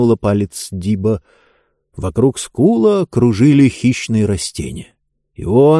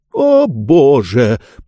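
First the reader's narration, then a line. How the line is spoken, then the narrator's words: Anguished moan. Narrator (Russian): простонал Обадей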